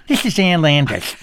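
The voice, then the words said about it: Impression of Ann Landers. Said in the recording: “You always do that voice. ... She talks like that.”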